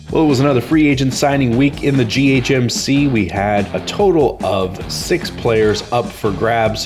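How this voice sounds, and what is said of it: Voice sounds sick, under the weather. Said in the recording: “home sick today, and so apologizing if my voice is a little under the weather”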